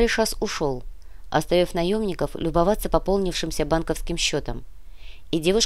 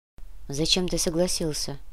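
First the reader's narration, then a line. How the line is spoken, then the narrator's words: Quiet question. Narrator (Russian): негромко осведомилась Яна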